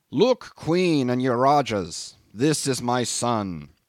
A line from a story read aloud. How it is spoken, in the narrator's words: he proclaimed in a stentorian voice